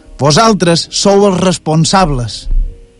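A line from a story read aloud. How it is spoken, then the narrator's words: Shouting. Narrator (Catalan): Encara el vam sentir que cridava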